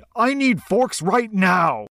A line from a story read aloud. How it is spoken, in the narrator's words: The back of house manager kept yelling